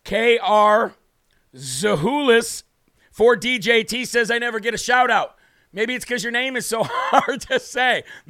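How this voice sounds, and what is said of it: Strained, worn-out voice. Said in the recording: “As you can tell, my voice has not been kind to me.”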